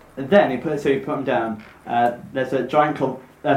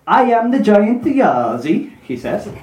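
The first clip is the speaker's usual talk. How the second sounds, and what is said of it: Put-on accent for giant's voice. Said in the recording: “give the giant voice again? ... Is it Swedish? ... I thought it was like Rastafarian. ... why is he doing a Jamaican accent?”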